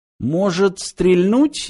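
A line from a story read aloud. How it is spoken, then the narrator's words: Uncertain suggestion. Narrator (Russian): неуверенно предложил Фыф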